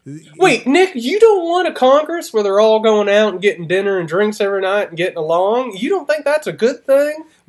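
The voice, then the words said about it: Mock cable news pundit voice. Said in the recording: “I just went into my cable news voice.”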